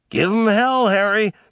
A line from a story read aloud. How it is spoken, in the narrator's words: someone would shout from the crowd